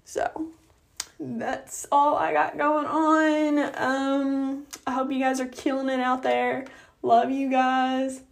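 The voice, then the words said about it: Rough, groggy voice. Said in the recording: “I'm sorry my voice sounds terrible. I kind of just woke up.”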